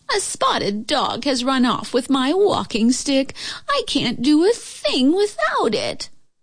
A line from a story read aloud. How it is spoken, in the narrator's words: moaned the old lady